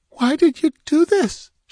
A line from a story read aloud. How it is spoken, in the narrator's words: begged